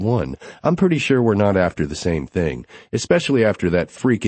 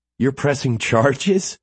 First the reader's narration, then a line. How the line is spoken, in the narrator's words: She laughs, like this is way more crazy than her behavior